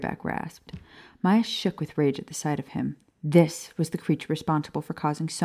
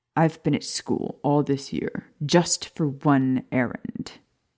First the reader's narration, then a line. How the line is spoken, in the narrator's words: Professor Higgs snapped